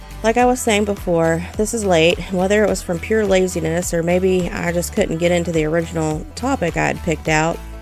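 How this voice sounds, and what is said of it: Voice still affected by cold. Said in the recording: “We also had a pretty bad summer cold make a run through the household ... You may still be able to hear it in my voice. ... I still don't sound right.”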